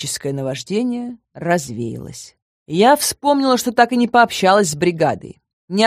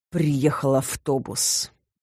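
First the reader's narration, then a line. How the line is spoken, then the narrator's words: Displeased, through gritted teeth. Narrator (Russian): недовольно процедил сквозь зубы друид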